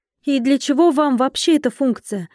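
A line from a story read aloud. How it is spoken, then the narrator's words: Exclaiming. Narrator (Russian): воскликнула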